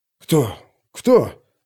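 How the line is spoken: Confused crowd whispering. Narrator (Russian): растерянно зашептались вокруг

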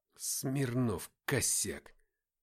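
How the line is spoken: Muttered. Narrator (Russian): пробормотал Руслан

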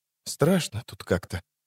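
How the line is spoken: Quiet, uneasy. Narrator (Russian): сказала она тихо

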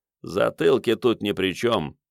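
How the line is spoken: Grumbling neighbor. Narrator (Russian): пробурчал сосед

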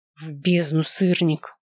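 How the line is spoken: Growled. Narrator (Russian): рычание

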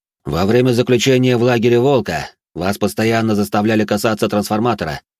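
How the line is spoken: Loud. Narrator (Russian): громко произнес

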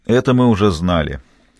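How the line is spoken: Weary remark. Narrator (Russian): устало заметил Хасан бен Куфра

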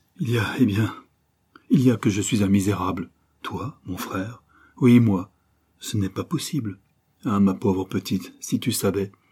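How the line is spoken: Remorseful boy stammering. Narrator (French): bégaya le malheureux garçon, fou de remords et de honte

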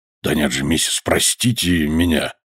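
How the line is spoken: Old man's mumble. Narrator (Russian): пробормотал старый моряк

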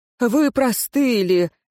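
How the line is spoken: Gloomy statement. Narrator (Russian): мрачно констатировал смотритель Тангора

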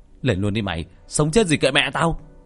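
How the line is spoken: Shout. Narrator (Vietnamese): Tôi quát lên

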